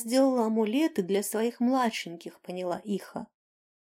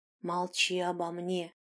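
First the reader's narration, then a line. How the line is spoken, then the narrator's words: Warning whisper. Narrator (Russian): предупредил шепот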